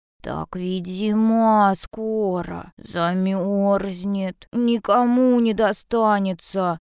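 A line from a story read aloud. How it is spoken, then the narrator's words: Grumbling bear cub. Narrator (Russian): проворчал медвежонок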